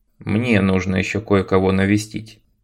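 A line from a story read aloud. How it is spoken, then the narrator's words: Calm reply. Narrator (Russian): спокойно ответил Том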